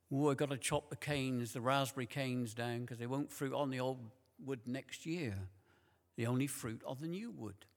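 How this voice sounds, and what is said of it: Imitated Wiltshire accent. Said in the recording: “in his lovely Wiltshire accent”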